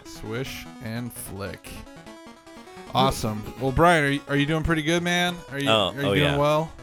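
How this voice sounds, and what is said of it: Usual voice. Nothing is said of it.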